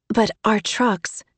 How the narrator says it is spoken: she said hesitantly

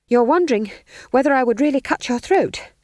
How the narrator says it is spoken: panted McGrath

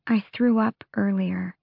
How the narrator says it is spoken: Evangeline whispered

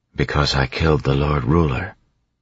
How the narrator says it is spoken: she said quietly

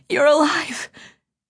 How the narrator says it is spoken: she managed to gasp

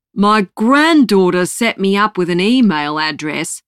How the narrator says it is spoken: he bellows

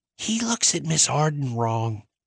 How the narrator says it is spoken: Gracie whispered

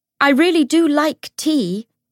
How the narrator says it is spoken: James shouted from the bottom of the steps

